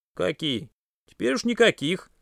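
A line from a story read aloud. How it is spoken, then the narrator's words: Sad. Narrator (Russian): грустно ответил Дима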